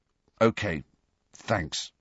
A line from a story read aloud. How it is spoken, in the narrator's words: he muttered